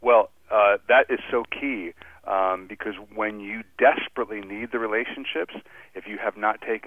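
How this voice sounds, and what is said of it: Usual voice. Nothing is said of it.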